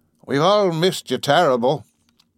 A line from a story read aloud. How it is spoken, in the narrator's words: squeaked